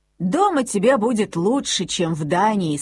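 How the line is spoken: Plain. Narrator (Russian): сказал ей папа

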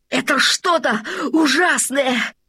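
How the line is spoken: Breathless shout. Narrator (Russian): задыхаясь, закричал Лабан

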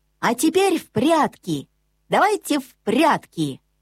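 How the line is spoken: Sudden speech. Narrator (Russian): Аленка вдруг сказала

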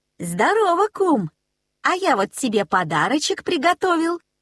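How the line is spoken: Cheerful. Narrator (Russian): весело сказал Нильс

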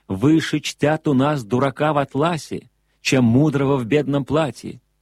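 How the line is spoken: Shouted reply. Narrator (Russian): вы кричали мне в ответ

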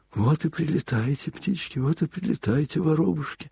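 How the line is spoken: Worried muttering. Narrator (Russian): бормотал он озабоченно

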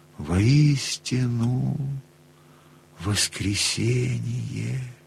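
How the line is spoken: Old man, strange voice. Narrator (Russian): Будто не своим голосом выговорил дед

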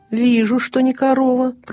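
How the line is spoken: Grumbling strange beast. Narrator (Russian): пробурчал незнакомый зверь

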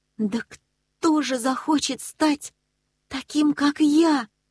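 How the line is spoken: Desperate exclamation. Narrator (Russian): в отчаянии воскликнул Нильс

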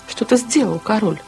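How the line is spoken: Exclaimed. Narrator (Russian): воскликнул кала

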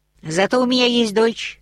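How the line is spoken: Very loud shout. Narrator (Russian): крикнула так громко, что все вороны взлетели с зубцов крепостной стены

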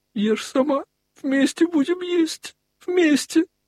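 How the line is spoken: Speaking through sobs. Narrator (Russian): Продолжая плакать сквозь рыдания говорил

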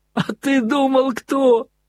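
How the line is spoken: Loud joyful ringing yell. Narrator (Russian): Звонким счастливым голосом изо всей силы завопил Красоткин

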